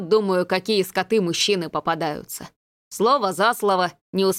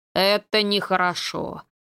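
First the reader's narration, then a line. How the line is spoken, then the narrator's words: Priest's deep bass. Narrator (Russian): пробасил поп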